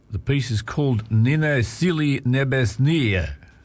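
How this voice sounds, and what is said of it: Russian accent on a title. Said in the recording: “my best Russian accent”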